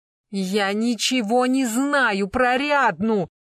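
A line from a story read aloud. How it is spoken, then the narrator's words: Loud plaintive cry. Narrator (Russian): Жалобно и столь же громко вскрикнул Серафим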